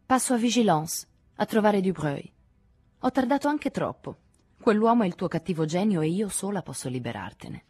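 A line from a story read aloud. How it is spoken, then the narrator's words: Provocative tone. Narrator (Italian): Paul disse in tono provocante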